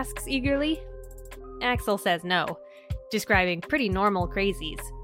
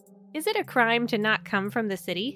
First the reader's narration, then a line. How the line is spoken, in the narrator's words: Axel asks